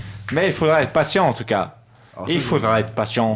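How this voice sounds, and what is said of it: Usual voice. Nothing is said of it.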